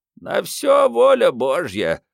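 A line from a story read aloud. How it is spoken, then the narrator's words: Old man's creak, sudden loud cry. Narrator (Russian): проскрипел старик и вдруг зычно возопил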